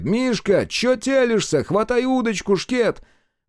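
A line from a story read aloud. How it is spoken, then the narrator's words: Yelling. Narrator (Russian): полный порядок вопит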